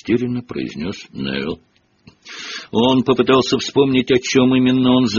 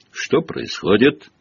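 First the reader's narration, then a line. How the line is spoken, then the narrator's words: Stern question. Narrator (Russian): строго спросила она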